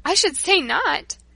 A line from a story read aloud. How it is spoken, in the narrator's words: She laughed